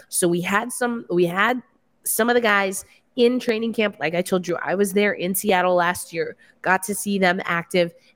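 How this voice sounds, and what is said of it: Raw, strained hoarse voice. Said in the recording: “my voice is still coming back from, I did 21 games in like 5 days ... my voice is a little raw”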